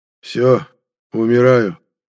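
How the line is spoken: Calm, tired voice. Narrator (Russian): каким-то спокойным, уставшим голосом произнес искоренитель

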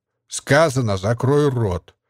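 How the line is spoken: Lazy. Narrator (Russian): лениво произнес бандит

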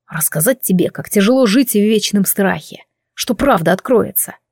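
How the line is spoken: Growl. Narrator (Russian): прорычал Кайвин

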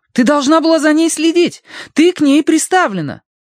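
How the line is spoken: Shrill animal-like wailing. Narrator (Russian): Мэйзри начала подвывать, визгливо, как лесная зверушка

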